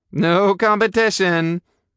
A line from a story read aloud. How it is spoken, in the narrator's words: I said loudly